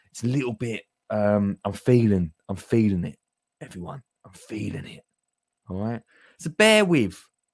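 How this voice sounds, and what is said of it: Slightly croaky voice. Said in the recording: “my voice is a little bit, not croaky, but a little bit like... It's going to be a croaky one.”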